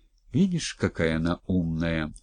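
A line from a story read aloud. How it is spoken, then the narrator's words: Whispered. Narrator (Russian): шепнул Скотников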